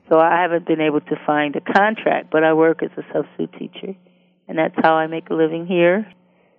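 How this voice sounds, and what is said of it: Northern accent. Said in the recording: “it's very obvious I'm from the north. I have an accent everybody says I have an accent.”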